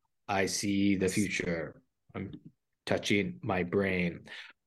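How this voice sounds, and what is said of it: Imitates another person's voice. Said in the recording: “What a Miss Cleo. ... Impersonation that was. ... Nailed it.”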